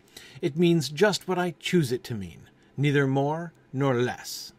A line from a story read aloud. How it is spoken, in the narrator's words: Humpty Dumpty said, in a rather scornful tone